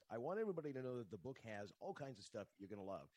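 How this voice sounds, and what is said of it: Classic radio announcer voice. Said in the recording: “You have the radio voice of radio voices.”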